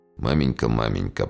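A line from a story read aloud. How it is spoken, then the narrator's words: Mumbling. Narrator (Russian): пробормотал Павел Александрович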